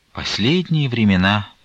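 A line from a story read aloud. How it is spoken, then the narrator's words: Sorrowful sigh. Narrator (Russian): пригорюнясь, вздохнула Таифа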